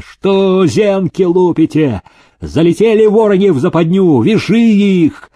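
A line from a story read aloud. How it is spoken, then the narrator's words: Shouting at full strength. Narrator (Russian): Что было силы закричал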